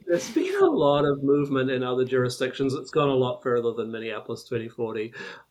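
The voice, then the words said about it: Speaks with a foreign accent. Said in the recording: “Did you say sexplexes, or is that your accent? ... I have problems with some of these words with my accent.”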